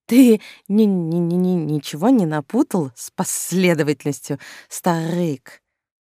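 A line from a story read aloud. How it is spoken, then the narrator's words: Emotional stammering burr. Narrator (Russian): На бедного шоколадного зайца тоже напал нервный тик, а к картавости добавилось еще и заикание, явно от переизбытка чувств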